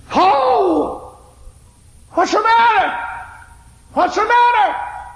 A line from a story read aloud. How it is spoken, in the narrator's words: shook up and cried